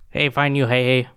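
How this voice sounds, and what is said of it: Very Canadian-sounding accent. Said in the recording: “Sounded very Canadian. ... It sounded extremely Canadian. ... it sounded like every Canadian I've ever heard.”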